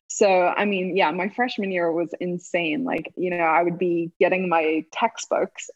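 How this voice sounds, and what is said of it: South African accent. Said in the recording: “coming from South Africa ... I spoke differently to them ... I love your accent”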